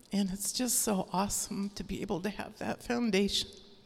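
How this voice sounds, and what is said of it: Teary, emotional voice. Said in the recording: “getting teary”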